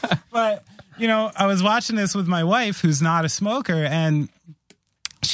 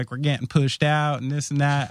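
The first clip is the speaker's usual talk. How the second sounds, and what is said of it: Put-on Southern American accent. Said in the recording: “I don't know why I did a Southern accent.”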